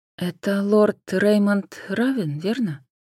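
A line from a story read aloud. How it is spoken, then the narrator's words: Soft interjection. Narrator (Russian): мягко вклинилась Джен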